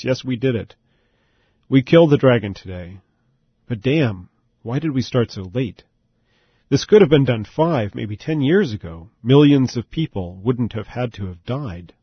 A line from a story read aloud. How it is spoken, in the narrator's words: the king answered in a broken voice